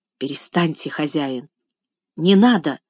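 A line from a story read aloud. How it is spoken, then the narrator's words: Choked voice. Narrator (Russian): сдавленным голосом проговорила она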